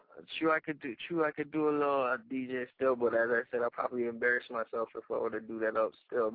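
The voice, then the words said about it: Strong Caribbean accent. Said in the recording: “you be giving me that crazy Caribbean accent”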